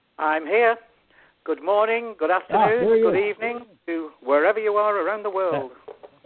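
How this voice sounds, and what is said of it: Louisiana accent. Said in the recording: “has got a bit of an accent. Is that Texas there? ... That's not Texas. That's Louisiana.”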